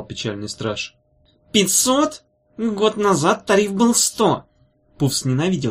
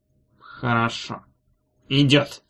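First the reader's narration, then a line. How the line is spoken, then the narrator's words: Through gritted teeth. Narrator (Russian): сказал он сквозь зубы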